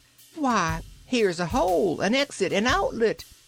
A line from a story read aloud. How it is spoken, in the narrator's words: exclaimed the Ark from above